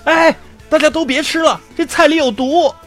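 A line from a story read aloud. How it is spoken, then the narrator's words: Loud shout. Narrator (Chinese): 这货当时居然大喊道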